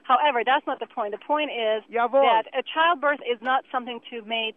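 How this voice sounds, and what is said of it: Slight Germanic-sounding accent. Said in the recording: “You got something German going on there... some Germanic thing. It's Swiss... there's a slight accent that the lady has”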